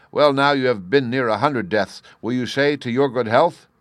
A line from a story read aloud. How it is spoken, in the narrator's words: the king, whose fury was greater than ever, but who cried